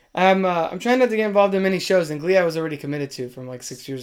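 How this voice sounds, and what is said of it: Strained, fading voice. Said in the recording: “my voice is going.”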